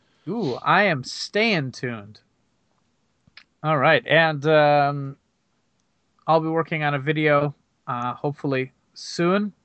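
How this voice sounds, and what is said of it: Weak, recovering voice. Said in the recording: “my voice is just starting to come back right now.”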